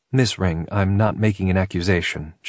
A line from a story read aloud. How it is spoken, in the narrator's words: she said calmly